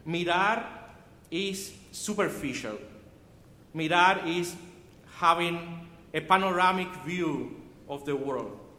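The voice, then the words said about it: Cuban Spanish accent in English. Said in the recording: “I'm Cuban. My first language is Spanish. You know, the accent is.”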